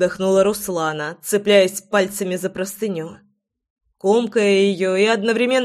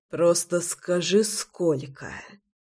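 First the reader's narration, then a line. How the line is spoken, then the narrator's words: Rasped. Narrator (Russian): Прохрипел я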